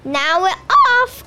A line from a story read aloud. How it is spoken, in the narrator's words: cried Joe